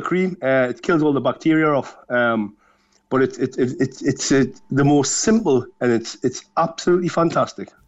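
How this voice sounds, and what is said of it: Geordie (Newcastle) English accent. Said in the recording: “that's a fine Geordie accent ... I left Newcastle 25 years ago”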